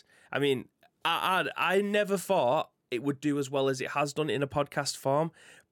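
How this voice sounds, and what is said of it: Northern English accent. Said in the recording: “our northern accents ... us Northerners talk”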